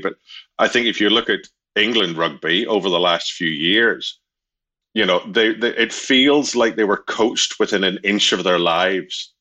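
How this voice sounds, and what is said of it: Slight Northern Irish accent. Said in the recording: “a hint of an accent ... at least a modicum ... It's Northern Irish anyway ... I still hang on to it”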